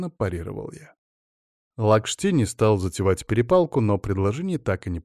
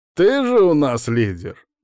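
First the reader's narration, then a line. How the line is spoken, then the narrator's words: Mocking remark. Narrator (Russian): насмешливо бросил Лакшти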